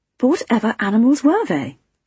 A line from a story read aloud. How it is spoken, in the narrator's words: I gasped